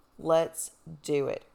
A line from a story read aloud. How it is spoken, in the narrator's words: I said firmly